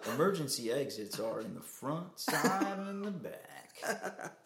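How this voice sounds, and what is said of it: Flight attendant announcement voice. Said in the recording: “the total YouTube accent, but that cadence... ... a mix of a newscaster and a flight attendant”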